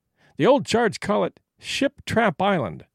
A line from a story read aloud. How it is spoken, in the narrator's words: Whitney replied